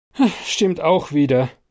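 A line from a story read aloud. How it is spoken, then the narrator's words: Conciliatory sigh. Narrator (German): seufze versöhnlicher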